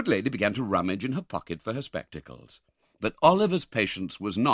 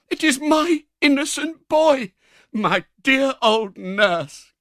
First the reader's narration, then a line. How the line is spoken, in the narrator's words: cried Oliver